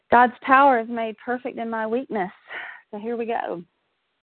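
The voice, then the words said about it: Shaky voice. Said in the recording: “I'm just getting over a respiratory bug, so my voice is a little bit shaky”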